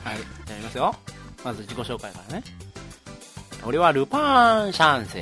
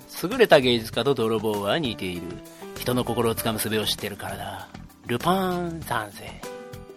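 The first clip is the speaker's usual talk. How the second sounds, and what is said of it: Impression of cartoon thief Lupin. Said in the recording (Japanese): “ルパン三世のモノマネ”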